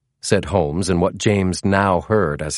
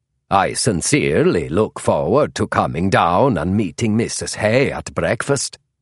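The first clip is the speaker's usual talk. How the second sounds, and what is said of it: Exaggerated fake Scandinavian accent. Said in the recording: “an exaggerated, an obviously false Scandinavian accent”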